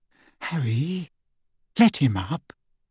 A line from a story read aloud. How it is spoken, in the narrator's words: Hermione whispered